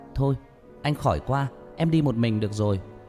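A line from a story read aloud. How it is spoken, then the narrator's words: Shouting. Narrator (Vietnamese): Hét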